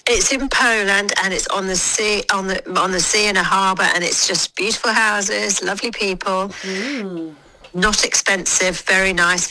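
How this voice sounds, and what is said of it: Congested, stuffy voice. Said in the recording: “I've got a cold,”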